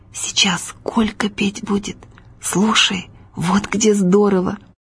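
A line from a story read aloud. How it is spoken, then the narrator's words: Quiet whisper. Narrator (Russian): приятель Витька и тихо шепнул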